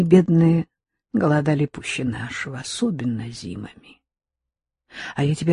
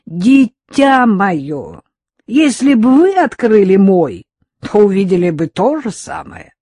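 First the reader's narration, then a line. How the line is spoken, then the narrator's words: Laughing loudly. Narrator (Russian): Он расхохотался и в ответ мне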